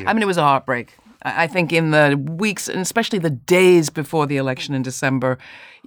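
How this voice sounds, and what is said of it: English accent. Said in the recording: “with that accent, I have to start by asking you, what do you think about the election results in England?”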